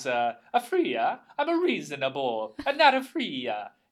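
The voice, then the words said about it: Bad put-on Italian accent. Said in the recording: “the bad Italian accent guy goes ... you think that's a bad accent, but that's exactly what it is”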